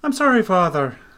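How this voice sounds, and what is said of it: Thick Irish accent. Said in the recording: “She said in a thick Irish accent.”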